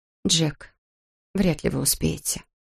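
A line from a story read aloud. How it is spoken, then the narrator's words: Quiet dry objection. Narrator (Russian): возразила она тихо, сухо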